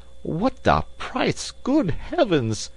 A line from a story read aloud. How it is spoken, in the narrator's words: cried Passepartout